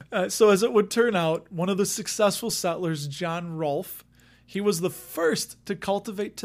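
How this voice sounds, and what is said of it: Usual voice. Nothing is said of it.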